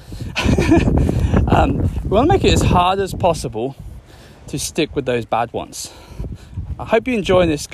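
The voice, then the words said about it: Slightly out of breath while walking. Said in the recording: “I'm getting a bit out of breath here. I'm on a little power walk.”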